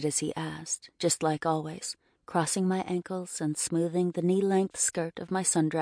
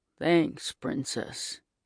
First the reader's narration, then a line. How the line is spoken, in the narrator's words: he grumbled